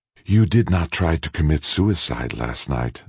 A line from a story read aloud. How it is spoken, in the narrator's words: the Shing said in his toneless whisper